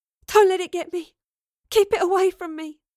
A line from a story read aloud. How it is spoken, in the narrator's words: gasped